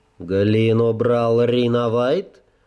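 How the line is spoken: Teacher's snort. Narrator (Russian): хмыкнул учитель

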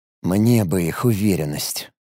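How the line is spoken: Muttered. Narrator (Russian): пробормотал Алекс

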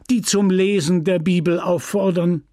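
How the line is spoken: Desperate cry. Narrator (German): rief verzweifelt

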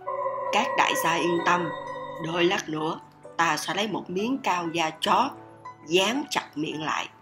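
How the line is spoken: Soft reply. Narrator (Vietnamese): Tiểu nhị khẽ đáp

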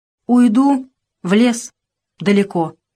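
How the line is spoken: Calm statement. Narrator (Russian): спокойно сказал Тимоха

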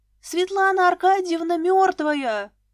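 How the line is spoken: Shouting. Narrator (Russian): закричала она

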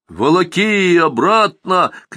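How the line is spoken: Shouting. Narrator (Russian): кричали соглядатые

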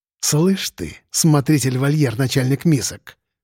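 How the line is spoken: Hissing. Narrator (Russian): прошипел лейтенант

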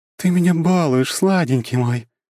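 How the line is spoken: Cooing. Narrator (Russian): проворковала она

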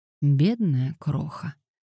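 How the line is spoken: Quiet. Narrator (Russian): тихо проговорил он

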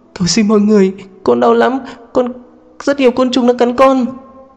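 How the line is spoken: Sobbing. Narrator (Vietnamese): Diệp Lan, cô vẫn không ngừng nức nở

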